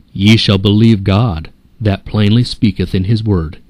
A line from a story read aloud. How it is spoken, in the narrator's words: answered the reformer